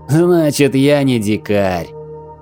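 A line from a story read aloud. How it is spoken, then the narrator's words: Merry laughter, leader. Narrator (Russian): предводитель Гитаи весело расхохотался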